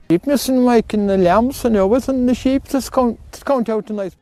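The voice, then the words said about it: Very thick, hard-to-understand accent. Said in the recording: “even that guy's accent had an accent”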